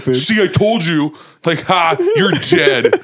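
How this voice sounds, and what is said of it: Imitates another person's voice. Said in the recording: “doing a voice for my dad”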